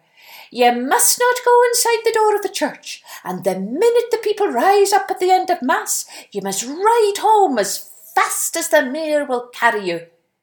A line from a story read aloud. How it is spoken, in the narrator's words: the henwife called out to her